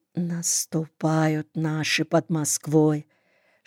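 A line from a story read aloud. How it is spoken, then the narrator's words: Whispered. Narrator (Russian): Шепотом начал Борька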